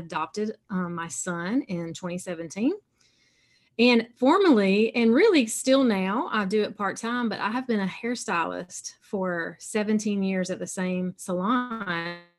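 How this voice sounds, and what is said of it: Southern US accent. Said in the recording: “I live in South Carolina, so you can tell a little bit by my accent. I got some Southern sound in it.”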